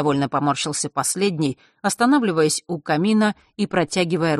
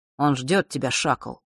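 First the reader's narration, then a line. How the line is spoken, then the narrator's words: Quiet, dry. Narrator (Russian): негромко и сухо произнес Рок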